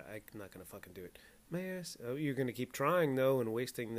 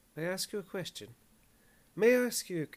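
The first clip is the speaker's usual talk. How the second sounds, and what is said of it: Weak attempt at Irish accent. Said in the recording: “My Irish accent is no good.”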